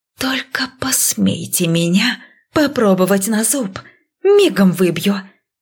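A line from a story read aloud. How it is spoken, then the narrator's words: Menacing hiss. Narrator (Russian): угрожающе зашипела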